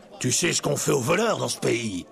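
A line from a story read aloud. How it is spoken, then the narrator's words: Merchant roaring. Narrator (French): rugit le marchand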